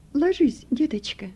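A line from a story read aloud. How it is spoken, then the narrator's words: Gentle, tender. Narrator (Russian): ласково проговорила врач Пушкина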